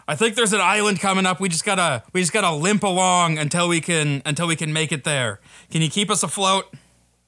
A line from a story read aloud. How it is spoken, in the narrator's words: he he yells down